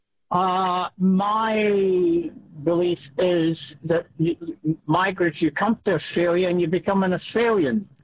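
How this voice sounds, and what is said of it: Scottish accent. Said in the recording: “as you can tell by my accent, I'm one myself, Scotland”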